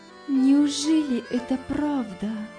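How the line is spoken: Trembling voice. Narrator (Russian): проговорила она дрожащим голосом

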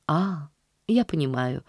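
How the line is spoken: Very gentle reply. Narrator (Russian): ответила мисс Полли очень мягко

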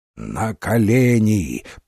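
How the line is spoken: Growl. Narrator (Russian): прорычал он

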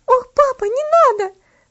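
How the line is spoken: Terrified scream. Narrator (Russian): закричала она в ужасе

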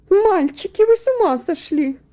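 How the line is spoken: Exclaimed. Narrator (Russian): воскликнула мисс Лин

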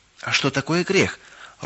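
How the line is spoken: Timid question. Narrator (Russian): робко спросила Галочка

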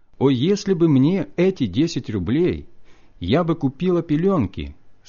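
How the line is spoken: Plain. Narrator (Russian): сказала жена

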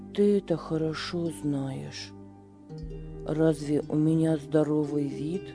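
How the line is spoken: Calm. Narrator (Russian): спокойно ответил Беппо

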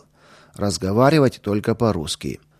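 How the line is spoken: Stern warning. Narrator (Russian): надзирателя, который сразу строго предупредил

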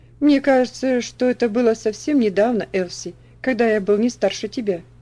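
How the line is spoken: Thoughtful after laughing. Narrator (Russian): рассмеялся, а затем задумчиво сказал

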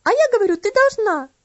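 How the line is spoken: Shrieking. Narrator (Russian): завизжала Энна

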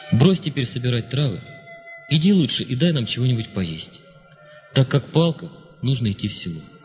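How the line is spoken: Gentle, kind tone. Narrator (Russian): обратился он ласково

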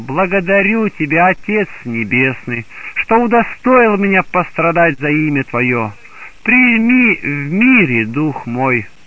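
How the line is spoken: Joyful exclamation. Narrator (Russian): он воскликнул радостно

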